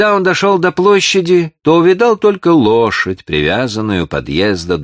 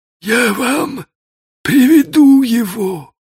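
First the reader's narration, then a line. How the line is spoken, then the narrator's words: Weak voice, choking sobs. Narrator (Russian): сказал он слабым голосом, задыхаясь от рыданий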